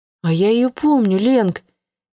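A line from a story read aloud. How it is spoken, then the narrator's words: Quiet interjection. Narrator (Russian): тихо вступила в разговор Маша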